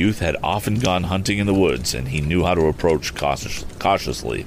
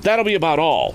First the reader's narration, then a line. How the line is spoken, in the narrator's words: the youth exclaimed in as steady a voice as he could manage